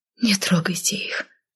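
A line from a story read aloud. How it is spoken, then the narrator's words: Tearful whisper. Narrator (Russian): прошептала я, чувствуя, как на глазах наворачиваются слезы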